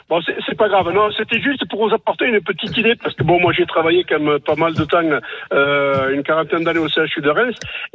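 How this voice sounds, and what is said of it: Regional French accent. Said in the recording (French): “avec mon accent, c'est pas évident”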